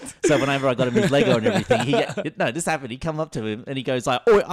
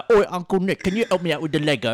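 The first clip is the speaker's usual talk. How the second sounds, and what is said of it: Put-on Cockney English accent. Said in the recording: “a real Cockney English accent ... he's got that real Cockney talk”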